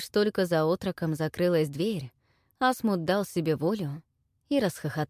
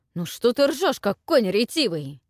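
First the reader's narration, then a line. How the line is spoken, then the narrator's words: Irritated. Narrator (Russian): раздраженно сказал князь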